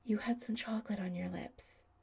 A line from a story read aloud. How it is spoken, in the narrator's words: Chris whispered in Adam's ear